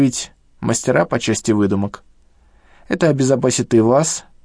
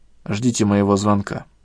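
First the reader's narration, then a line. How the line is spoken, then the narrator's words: Plain. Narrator (Russian): ответил Андрей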